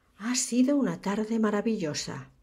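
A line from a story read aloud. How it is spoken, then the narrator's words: Sighing. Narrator (Spanish): suspiró Horace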